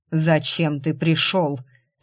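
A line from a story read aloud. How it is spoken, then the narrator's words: Cold furious growl. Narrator (Russian): с холодной яростью прорычал Лунный не хуже грима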